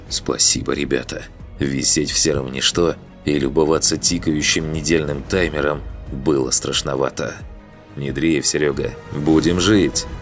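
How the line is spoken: Quiet whisper. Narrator (Russian): Тихо шепчет

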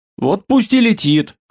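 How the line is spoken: Snorting. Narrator (Russian): хмыкнул Маслов

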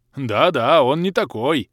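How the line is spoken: Supportive booming guard. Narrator (Russian): в поддержку прогудел стражник

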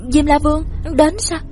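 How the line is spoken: Frightened cry. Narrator (Vietnamese): Ngũ Định Viễn hoảng sợ kêu lên

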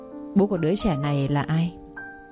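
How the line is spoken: Weary, sighing question. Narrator (Vietnamese): Sau một hồi than ngắn thở dài, bà mệt mỏi hỏi

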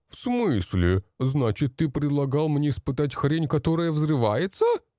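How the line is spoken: Shouted. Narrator (Russian): выкрикнул коротышка

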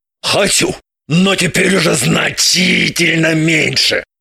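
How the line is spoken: Angry reply. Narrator (Russian): Шульгин зло ответил

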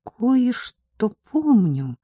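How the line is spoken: Uncertain reply. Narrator (Russian): ответила я неуверенно

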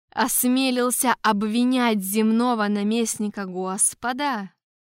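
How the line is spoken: Through gritted teeth. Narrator (Russian): процедил Торквемада

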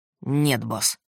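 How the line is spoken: Through gritted teeth. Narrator (Russian): Сквозь зубы проговорил служащий

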